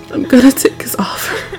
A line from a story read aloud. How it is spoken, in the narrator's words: you said between sobs